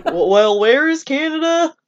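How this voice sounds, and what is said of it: Bad hillbilly Texan accent. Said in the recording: “that was a horrible accent. ... That was like just hillbilly. ... Hillbilly, no, he's ... Texan.”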